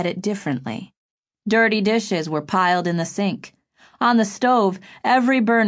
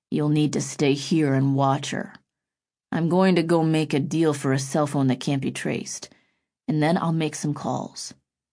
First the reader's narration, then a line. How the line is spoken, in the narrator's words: Roy said in a low voice